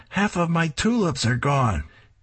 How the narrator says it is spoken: Wanda screams

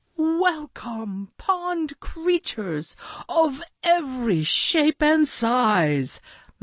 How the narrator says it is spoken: Maxwell called out

